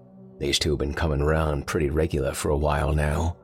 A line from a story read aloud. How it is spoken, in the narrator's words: he said